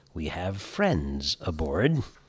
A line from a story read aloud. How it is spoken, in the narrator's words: Captain Levy calmly told the 90 passengers